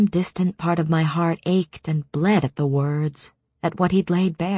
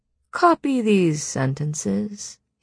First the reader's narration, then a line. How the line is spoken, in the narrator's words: he drawled from across the table